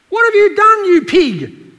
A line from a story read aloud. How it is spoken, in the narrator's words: yelled the prostitute